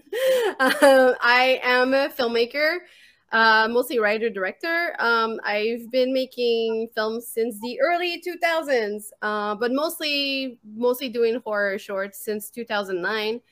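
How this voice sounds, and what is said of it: Quebec French-accented English. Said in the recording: “I'm from Montreal, Quebec. This is why I have a weird accent.”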